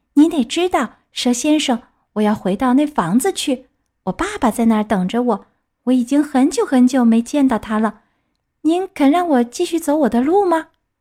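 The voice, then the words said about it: Sweet, thin, coaxing voice. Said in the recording (Chinese): “用很甜很细的声音讨好的对他说 ... 木偶又用那很甜很细的声音说”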